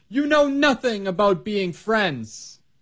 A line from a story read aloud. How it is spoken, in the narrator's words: she yelled